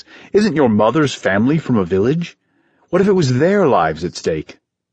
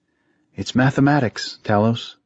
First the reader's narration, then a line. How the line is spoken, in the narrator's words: Leah said quietly